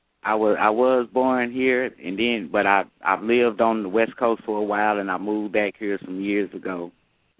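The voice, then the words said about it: Noticeable regional accent. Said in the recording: “You have quite an accent.”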